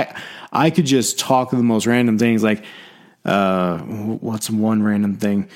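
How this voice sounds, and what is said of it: Usual voice. Nothing is said of it.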